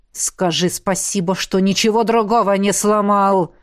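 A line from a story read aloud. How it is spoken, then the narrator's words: Deep frightening growl. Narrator (Russian): Зарычал Лиерт так низко, что даже я испугалась этого звука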